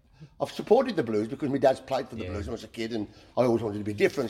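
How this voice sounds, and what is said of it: Black Country (yam yam) accent. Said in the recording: “our dialect ... I'm a yam yam ... he finds our accent hilarious”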